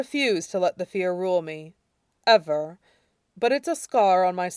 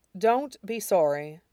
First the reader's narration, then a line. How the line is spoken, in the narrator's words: Shurong said firmly